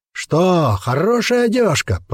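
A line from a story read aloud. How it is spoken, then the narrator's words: Roaring. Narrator (Russian): проревел Череп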